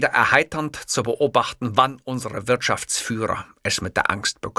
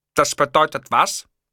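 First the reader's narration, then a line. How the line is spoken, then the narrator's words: Sharp question. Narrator (German): fragte ich scharf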